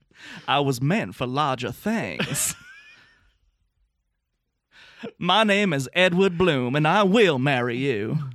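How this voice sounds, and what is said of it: Southern accent, imitating a film character. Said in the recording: “He's like Edward Bloom from Big Fish ... It's Ewan McGregor doing a Southern accent.”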